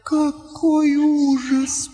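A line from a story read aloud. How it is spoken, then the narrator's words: Moan. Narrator (Russian): простонала Лаура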